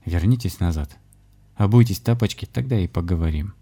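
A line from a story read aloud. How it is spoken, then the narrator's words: Quiet but commanding. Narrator (Russian): негромко, но властно сказал Александр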